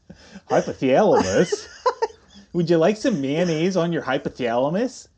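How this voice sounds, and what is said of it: Exaggerated Midwestern Minnesota accent. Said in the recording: “It's really Midwestern. Like, it's not even a twang. It's like a Minnesota thing.”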